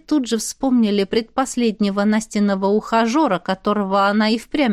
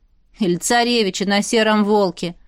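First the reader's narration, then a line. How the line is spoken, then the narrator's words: Amused snort. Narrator (Russian): хмыкнула вторая подруга Динара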